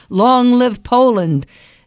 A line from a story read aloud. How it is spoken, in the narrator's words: sobbing